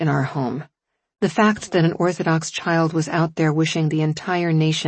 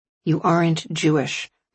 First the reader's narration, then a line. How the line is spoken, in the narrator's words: Mark Strand had flatly said